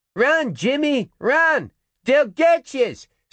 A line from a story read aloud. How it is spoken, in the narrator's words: screamed a retreating Rum Alley child